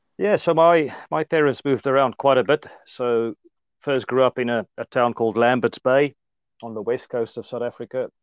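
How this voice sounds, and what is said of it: Strong South African Afrikaans accent. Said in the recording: “The Afrikaans accent ... still quite a strong South African accent”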